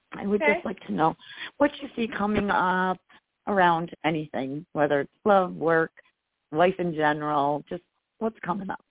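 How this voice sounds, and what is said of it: Slightly hoarse voice. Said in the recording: “Forgive my voice. It's a little hoarse because of the allergies.”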